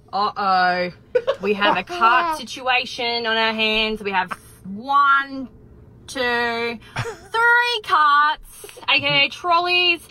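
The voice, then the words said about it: Australian accent. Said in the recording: “deputy ... from Australia ... I love her accent”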